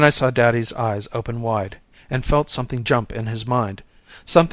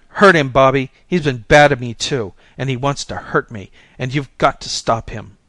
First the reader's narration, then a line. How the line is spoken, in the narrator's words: I was excited, and I shouted